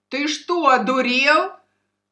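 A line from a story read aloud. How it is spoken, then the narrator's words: Shout. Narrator (Russian): крикнул ветеринар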